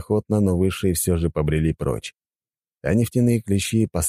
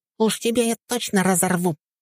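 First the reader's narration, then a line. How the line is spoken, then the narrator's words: Tiny squeaking voice. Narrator (Russian): пищал клещ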